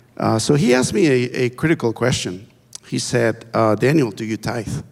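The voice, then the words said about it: Speaks English with a foreign accent. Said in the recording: “You can see my accent there ... I hope I don't need subtitles”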